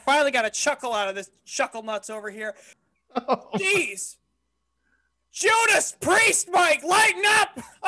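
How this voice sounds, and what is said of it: Loud yelling voice. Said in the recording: “I'm not even drinking and I'm yelling!”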